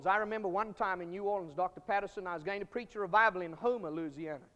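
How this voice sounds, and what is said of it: Mississippi Southern accent. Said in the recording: “That's why I speak with a Mississippi accent.”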